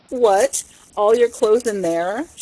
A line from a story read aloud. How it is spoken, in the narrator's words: she cried